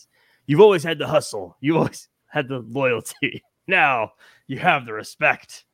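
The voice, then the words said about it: Bad John Cena impression. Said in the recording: “That's the worst John Cena impression you'll ever hear in your life.”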